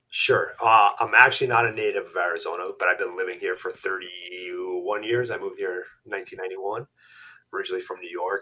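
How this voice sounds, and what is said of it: New York accent. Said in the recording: “the accent. ... I probably should have given it away.”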